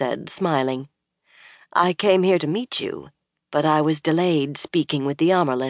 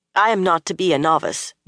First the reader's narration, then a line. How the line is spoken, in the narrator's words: Nynaeve said in a firm voice, but a little too quickly